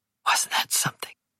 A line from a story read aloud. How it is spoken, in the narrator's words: whispered